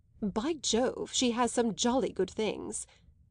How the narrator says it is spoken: he had yearningly murmured

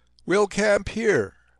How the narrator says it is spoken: called out from the rear

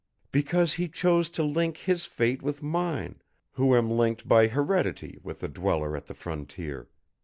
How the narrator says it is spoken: she said earnestly

